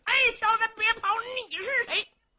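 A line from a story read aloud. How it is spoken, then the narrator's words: Loud shouting. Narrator (Chinese): 李元霸高声喊嚷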